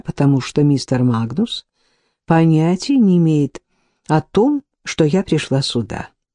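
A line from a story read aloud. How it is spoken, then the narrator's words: Gentle reply. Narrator (Russian): мягко ответила Касси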